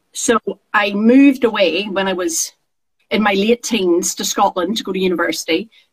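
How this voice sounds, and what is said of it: Northern Irish accent. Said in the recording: “for those who don't recognize the accent, I actually grew up in Northern Ireland. I was born in Northern Ireland”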